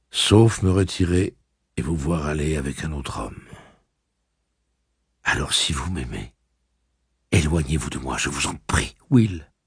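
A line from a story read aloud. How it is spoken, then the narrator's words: Calm voice. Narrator (French): dit-il d'une voix calme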